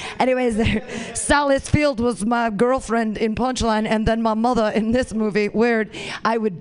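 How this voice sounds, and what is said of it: Usual voice. Nothing is said of it.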